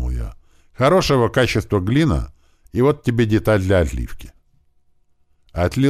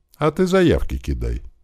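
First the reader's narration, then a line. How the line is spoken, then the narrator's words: Calm. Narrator (Russian): спокойно сказал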